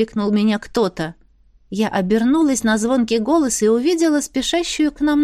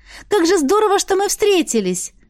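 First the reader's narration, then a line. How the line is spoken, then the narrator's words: Joyful announcement. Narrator (Russian): Радостно сообщила бывшая попутчица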